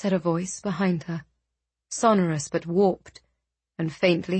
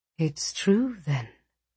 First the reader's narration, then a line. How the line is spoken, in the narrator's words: the woman murmured